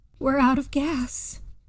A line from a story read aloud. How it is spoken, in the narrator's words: saying in a doomed voice